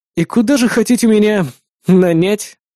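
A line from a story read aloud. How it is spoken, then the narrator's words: Resigned sighing question. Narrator (Russian): обреченно вздохнув, поинтересовался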